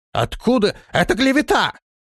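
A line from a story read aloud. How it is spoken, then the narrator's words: Thin shrill squeal. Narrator (Russian): тонким визгливым голосом завизжал он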